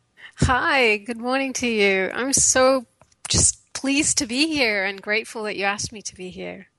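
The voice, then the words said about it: British accent. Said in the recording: “her beautiful, lovely British accent”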